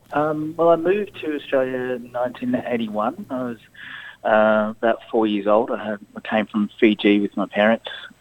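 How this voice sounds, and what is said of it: Australian accent. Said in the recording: “as you can tell by the Australian accent”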